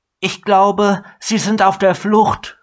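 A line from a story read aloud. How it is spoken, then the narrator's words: Elf calling out. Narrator (German): rief die Elfe ihm zu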